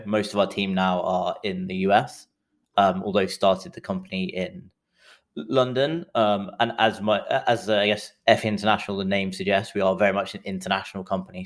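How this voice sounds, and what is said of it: English accent. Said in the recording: “As you can tell from the accent, I'm English”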